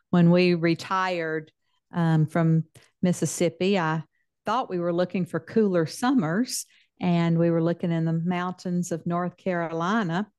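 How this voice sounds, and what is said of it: Southern US accent. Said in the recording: “I'm a Texan with a Southern accent because I spent most of my life in Mississippi”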